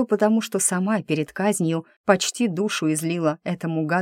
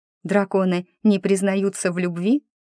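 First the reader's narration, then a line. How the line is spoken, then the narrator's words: Displeased snort, blurted question. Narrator (Russian): Недовольно фыркнув, не удержалась я от вопроса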